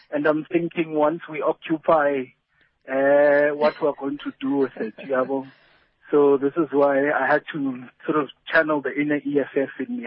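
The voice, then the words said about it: Speaks with a distinctive accent. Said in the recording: “it's the accent. Sometimes your accent,”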